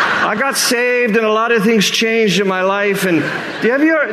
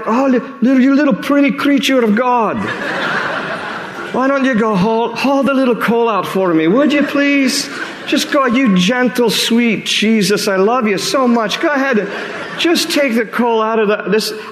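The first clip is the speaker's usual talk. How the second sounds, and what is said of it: Put-on Scottish accent. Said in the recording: “I don't know why I've turned into a Scottish accent”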